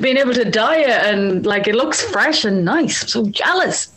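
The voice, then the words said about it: Irish accent. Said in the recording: “it's good to hear an Irish accent”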